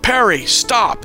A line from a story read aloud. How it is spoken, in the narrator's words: his father shouted